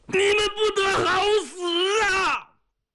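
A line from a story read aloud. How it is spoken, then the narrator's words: Shout cut off. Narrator (Chinese): 这一声没喊完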